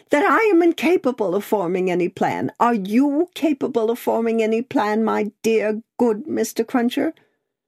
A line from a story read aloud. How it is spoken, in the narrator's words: said Miss Pross, wildly crying